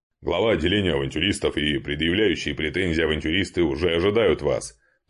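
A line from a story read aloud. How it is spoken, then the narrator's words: Deep bass voice. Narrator (Russian): пробасил Гардарик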